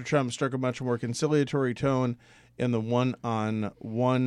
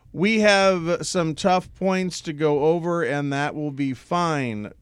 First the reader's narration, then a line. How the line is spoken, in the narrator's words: Trump said